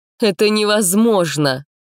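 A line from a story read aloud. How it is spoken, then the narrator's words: Declaring with heavy sigh. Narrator (Russian): заявила Тира, тяжело вздохнув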